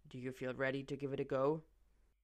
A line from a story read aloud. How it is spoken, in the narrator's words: asks quietly